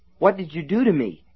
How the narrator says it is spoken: he gasped

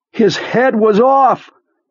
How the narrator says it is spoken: Beaver suddenly said from the storeroom's overhead speakers, his voice so loud and sudden

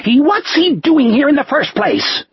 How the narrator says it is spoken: Osmond shrieked

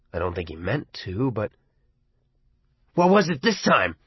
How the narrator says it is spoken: Arnie asked fiercely

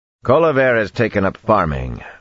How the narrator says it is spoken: Rand growled

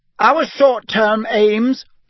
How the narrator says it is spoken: said Hermione, speaking even more loudly than Ron

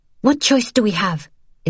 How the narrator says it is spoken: Isabel snapped

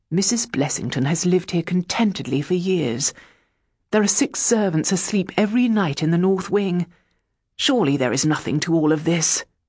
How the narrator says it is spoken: Richard said gently

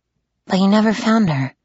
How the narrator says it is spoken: I said softly

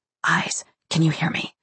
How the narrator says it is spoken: Letty to whisper into her microphone

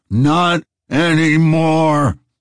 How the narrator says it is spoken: roared Zero

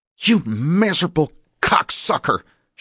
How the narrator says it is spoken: she snarled

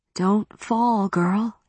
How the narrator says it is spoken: said in a sorrowful voice

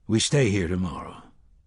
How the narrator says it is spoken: the gunslinger said

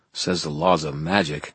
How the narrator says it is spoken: I muttered

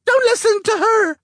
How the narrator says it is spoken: screeched Kay at the top of her lungs

